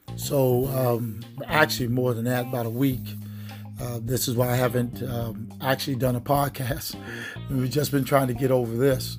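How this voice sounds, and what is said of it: Scratchy, hoarse voice. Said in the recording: “If I sound a little bit scratchy or hoarse, been a little bit under the weather the last couple of days.”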